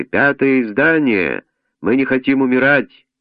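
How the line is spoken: Nasal wailing vendors. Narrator (Russian): Под окном продавцы гнусаво завывали

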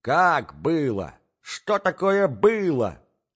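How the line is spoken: Confused shouting. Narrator (Russian): кричала Марья Александровна, не понимая еще хорошенько

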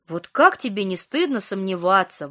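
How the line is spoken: Exclaiming. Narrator (Russian): воскликнула Ника

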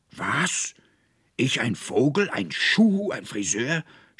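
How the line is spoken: Angry shouting. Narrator (German): schrie der Konrektor voller Zorn

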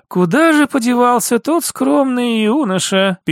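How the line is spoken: Sad sigh. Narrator (Russian): печально вздохнула Ольга Владимировна

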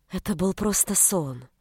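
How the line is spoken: Soft. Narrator (Russian): мягко ответила та

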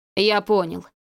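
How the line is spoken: Gloomy. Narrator (Russian): мрачно ответил Иван

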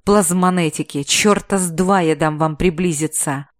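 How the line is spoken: Growling bandit. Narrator (Russian): рыкнул бандит-переговорщик

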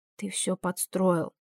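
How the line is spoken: Sudden whisper. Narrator (Russian): вдруг прошептала Нииида

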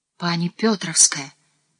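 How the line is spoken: Whisper. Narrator (Russian): снова шепнула жена Осиповича

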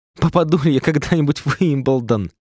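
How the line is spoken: Tearful plaintive question. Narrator (Russian): Маленький человек жалобно слезиво спросил

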